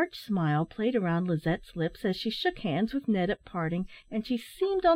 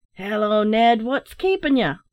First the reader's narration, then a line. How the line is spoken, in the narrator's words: roared the captain